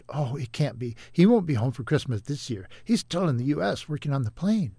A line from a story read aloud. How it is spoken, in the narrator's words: Her heart skipped a beat, but Becky quickly responded